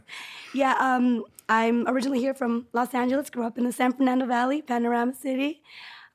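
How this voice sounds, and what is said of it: Raspy voice from a cough. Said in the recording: “excuse my voice. I'm fighting a cough. This is not how I normally sound ... A little raspy, yeah.”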